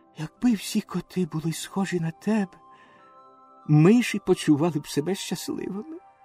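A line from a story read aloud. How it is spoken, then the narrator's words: Whisper in the ear. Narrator (Ukrainian): пришепотів йому на вухо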